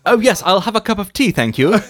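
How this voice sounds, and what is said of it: Put-on well-spoken British accent. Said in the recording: “speak like British people ... well-spoken British accent”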